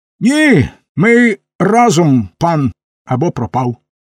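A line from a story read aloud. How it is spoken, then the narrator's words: Trembling but stubborn voice. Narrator (Ukrainian): тремтячим, але впертим голосом відказав Карсон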